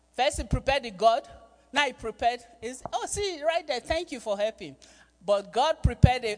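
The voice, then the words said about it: Speaker's own accent. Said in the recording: “don't mind my accent”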